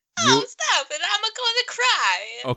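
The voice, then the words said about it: Bad Italian Super Mario accent. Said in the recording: “She's making a bad Italian accent... It's a Mario... I'm making fun of Super Mario Brothers.”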